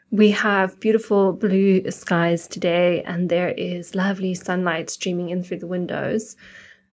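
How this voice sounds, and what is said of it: Voice slightly affected by a cold. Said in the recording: “You might be able to hear it in my voice, but I am a little bit under the weather today. I've had a cold kind of brewing”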